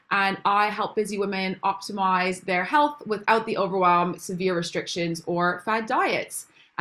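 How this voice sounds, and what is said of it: Canadian accent. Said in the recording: “if you can't tell by my accent, I'm actually not from England originally. I'm from Canada.”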